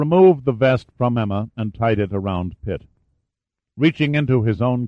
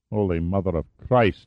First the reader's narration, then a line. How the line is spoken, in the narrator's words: he murmured in awe